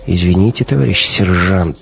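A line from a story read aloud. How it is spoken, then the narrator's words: Sighing. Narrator (Russian): вздохнул Гумилев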